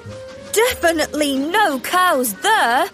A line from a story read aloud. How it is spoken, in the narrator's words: laughed Thomas